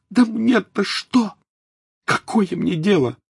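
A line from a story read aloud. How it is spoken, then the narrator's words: Exclaiming. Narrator (Russian): воскликнула Тонкс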